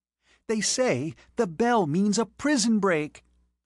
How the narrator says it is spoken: the first violin squealed excitedly

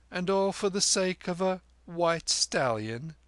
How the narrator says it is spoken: said Kim with a giggle

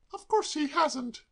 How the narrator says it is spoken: cried Molly indignantly

